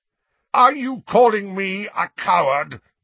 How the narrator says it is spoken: roared Sirius

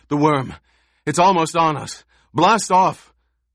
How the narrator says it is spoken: The last man came gasping, said

